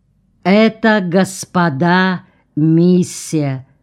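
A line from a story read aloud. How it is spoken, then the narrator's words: Calm prophetic tone. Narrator (Russian): Спокойно, пророческим тоном изрек он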